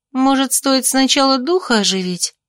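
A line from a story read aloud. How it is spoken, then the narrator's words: Hesitant sister. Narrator (Russian): неуверенно подала голос сестра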